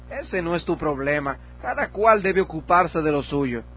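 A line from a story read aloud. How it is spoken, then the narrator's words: Exclamation. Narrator (Spanish): Presunción exclamó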